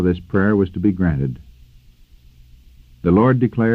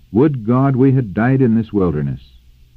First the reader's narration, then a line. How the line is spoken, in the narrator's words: In their rebellion, the people had exclaimed